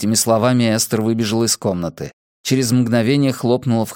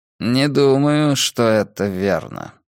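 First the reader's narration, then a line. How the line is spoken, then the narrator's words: Thoughtful tone. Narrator (Russian): задумчивым тоном проговорил Филипп Дюран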